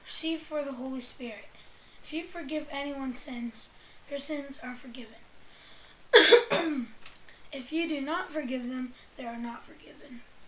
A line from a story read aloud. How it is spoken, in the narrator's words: breathed on them and said